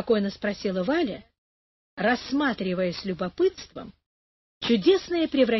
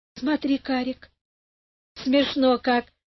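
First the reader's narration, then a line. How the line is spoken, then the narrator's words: Laughing. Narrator (Russian): засмеялась она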